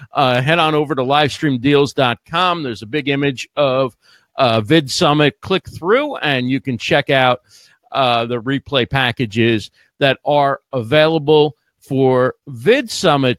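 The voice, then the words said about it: Slightly hoarse, failing voice. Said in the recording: “losing my voice just slightly”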